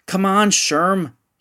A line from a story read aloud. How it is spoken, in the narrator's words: yelled into the night